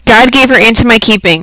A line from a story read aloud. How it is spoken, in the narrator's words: replied Hester Prynne, raising her voice almost to a shriek